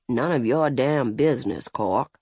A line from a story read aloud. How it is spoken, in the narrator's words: the judge muttered